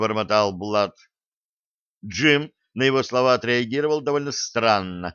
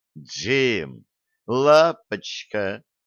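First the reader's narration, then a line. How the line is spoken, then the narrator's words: Astonished drawl. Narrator (Russian): протянул пораженный Блад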